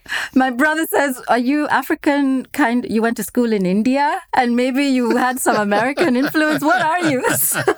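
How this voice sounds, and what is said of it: Mixed African, Indian, American accent. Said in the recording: “I can actually layer it on and even sound even more African ... It's like a schizophrenic accent.”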